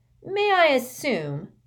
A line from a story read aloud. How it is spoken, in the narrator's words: she said in a sly tone